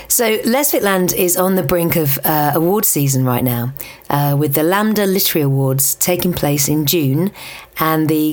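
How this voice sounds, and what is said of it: Throaty, husky voice. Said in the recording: “I'm sorry if I'm sounding a bit throaty, husky. ... I kind of lost my voice last week”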